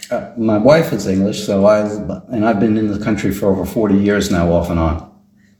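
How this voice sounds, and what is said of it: American accent. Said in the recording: “an American accent”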